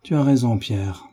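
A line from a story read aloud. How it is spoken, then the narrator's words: Sad. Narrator (French): reprit tristement David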